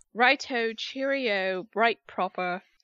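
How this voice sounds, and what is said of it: Poor attempt at English accent. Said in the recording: “can't do an English accent”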